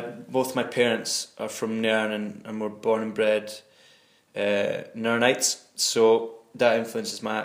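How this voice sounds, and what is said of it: Clear Scottish Nairnshire accent. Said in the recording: “Scottish accents. It's a relatively clear accent ... my accent, Nairnshire accent”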